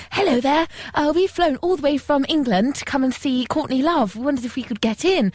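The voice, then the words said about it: Poor put-on British accent. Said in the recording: “we put on our best British accent ... That's the crappiest accent I've ever heard in my life.”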